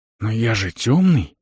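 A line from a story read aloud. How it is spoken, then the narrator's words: Whispered exclamation. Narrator (Russian): воскликнул шепотом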